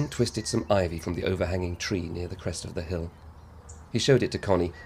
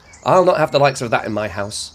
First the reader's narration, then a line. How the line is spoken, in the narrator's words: Connie snapped